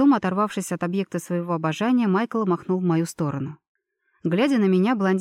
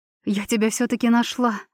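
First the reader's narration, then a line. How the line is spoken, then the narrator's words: Blissful breathy exhale. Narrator (Russian): выдохнула она с блаженной улыбкой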